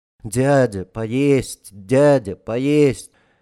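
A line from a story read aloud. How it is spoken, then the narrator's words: Dull, monotonous whine. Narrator (Russian): Один мальчишка говорил уныло и монотонно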